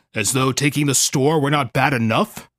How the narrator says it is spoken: Kallikak grumbled

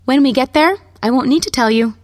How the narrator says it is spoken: she said brightly

